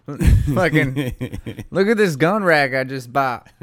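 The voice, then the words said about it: Rural Southern redneck accent. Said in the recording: “that was probably closer to his accent ... he definitely looked like he could have been an extra on Duck Dynasty”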